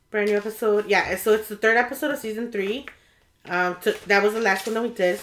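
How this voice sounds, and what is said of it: Sick-sounding voice with a cough. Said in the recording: “I sound terrible, guys. I have this cough that just, like, won't go away.”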